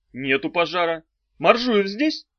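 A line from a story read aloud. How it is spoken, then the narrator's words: Stern. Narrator (Russian): сказал он строго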